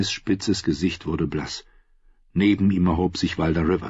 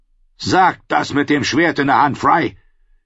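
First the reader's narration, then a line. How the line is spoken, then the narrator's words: Small man roaring. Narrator (German): brüllte der kleine Mann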